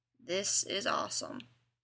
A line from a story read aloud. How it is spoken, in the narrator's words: Dean muttered